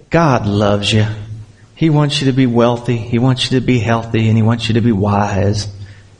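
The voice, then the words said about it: Joel Osteen preacher impression. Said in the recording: “it's hard not to do that with a Joel Osteen accent”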